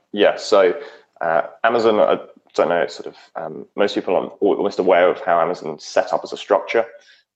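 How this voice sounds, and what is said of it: British accent. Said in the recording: “you're British. We can tell from the accent”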